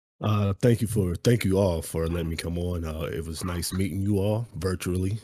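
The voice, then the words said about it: Very deep voice. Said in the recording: “your voice deep as shit. You sound like a demon”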